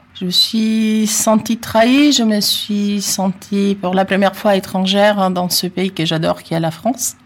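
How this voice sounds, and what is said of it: Italian accent speaking French. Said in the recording (French): “j'ai un accent, oui, je suis italienne”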